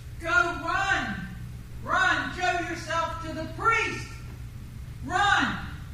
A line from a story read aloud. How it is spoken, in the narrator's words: he hollered back to us